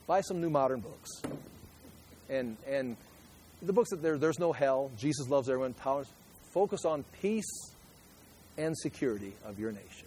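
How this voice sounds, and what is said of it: Sarcastic delivery. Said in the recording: “That was sarcastic”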